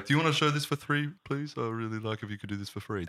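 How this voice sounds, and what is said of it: Imitates a pleading studio head. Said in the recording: “That's my impression of every studio head trying to get their movie made.”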